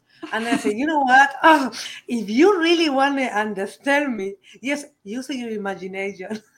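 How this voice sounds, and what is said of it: Strong non-native English accent. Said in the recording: “my strong accent ... English is not my first language”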